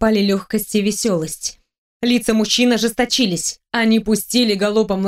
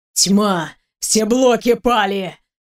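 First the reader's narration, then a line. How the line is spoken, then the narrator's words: Growl. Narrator (Russian): прорычал он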